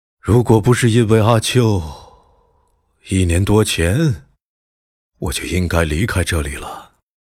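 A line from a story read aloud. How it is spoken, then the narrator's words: Long sigh. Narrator (Chinese): 他对着月光长叹一声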